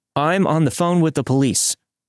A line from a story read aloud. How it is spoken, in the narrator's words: I turned my attention to the man at the door and shouted